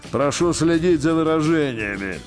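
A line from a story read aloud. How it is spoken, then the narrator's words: Irritated. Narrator (Russian): раздраженно сказал ему тогда начальник генштаба Макаров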